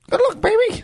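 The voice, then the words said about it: Squeaky Mickey Mouse-like impression. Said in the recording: “the weird, squeaky... Sounds like Mickey Mouse... That was a good impression.”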